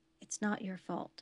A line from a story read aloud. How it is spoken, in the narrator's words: she whispered